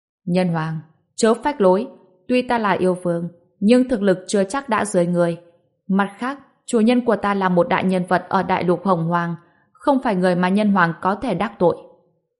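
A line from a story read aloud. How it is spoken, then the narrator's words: Raised voice. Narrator (Vietnamese): Xích Mi Ưng Vương cao giọng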